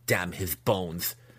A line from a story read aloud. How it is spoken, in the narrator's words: Massage spat